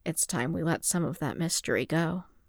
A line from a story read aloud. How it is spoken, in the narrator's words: he murmured